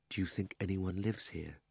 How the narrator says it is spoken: said Diggory at last, still in a whisper

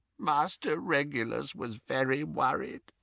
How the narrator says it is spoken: croaked Creature

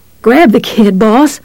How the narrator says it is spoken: Steve panted

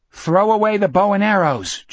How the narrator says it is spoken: Jack yelled, still crouching beside Richard

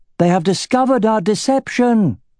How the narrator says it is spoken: cried the elf Uthinare

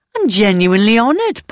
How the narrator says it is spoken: Pauline says, with a laugh

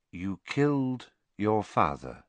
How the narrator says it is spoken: Dumbledore said, in the same soft voice

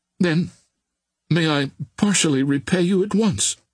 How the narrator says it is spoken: exclaimed the girl with a smile

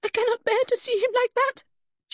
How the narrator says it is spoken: she cried

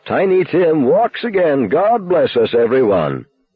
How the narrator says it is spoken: I cried dramatically

